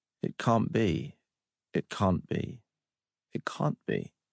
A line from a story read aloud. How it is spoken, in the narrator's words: Three times John sighed